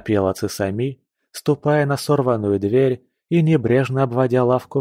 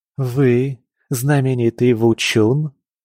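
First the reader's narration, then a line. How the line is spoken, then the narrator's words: Uncertain reply. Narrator (Russian): Он неуверенно ответил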